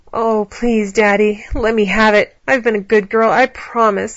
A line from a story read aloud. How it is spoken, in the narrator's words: Allie whined